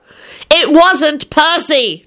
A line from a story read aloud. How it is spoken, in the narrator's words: Timothy said loudly